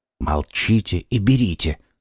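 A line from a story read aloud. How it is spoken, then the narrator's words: Whisper. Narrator (Russian): шепнул ему Д'Артаньян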